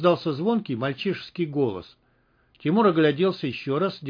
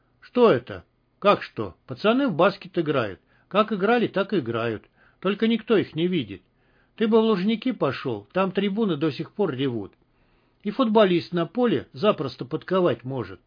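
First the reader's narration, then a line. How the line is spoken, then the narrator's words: Calm explanation. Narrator (Russian): спокойно разъяснил сталкер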